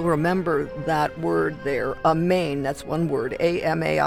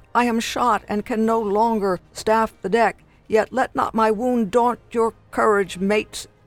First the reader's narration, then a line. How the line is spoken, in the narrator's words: one of the sailors cries out